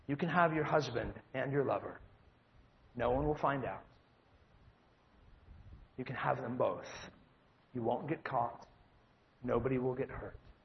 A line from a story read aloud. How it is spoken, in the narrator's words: He whispers to the adulterer